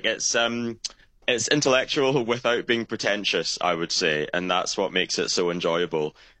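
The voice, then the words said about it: Posh Glasgow accent. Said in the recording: “You've got quite a posh Glasgow accent”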